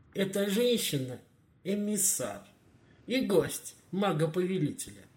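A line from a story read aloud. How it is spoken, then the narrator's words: Dry reply. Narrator (Russian): Сухо отозвался Мороз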